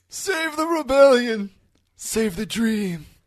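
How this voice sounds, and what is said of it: Imitates another person's voice. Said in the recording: “That was actually a pretty good impression.”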